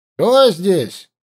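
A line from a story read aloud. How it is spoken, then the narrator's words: Shout. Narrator (Russian): крикнул один из группы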